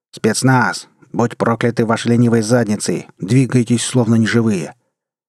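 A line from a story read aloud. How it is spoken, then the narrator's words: Louder sharp shout. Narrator (Russian): И уже более громко прикрикнул на своих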